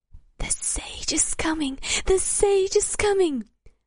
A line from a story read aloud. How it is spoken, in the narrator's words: someone began whispering loudly